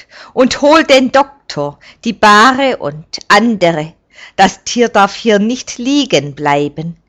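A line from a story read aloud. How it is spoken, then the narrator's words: Calling out. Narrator (German): ruft er Carol zu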